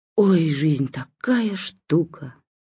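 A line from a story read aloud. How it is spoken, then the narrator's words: Womanish sigh. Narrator (Russian): совершенно по бабе вздохнул первая скрипка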